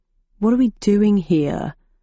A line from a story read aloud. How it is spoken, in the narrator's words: he asked in a bored voice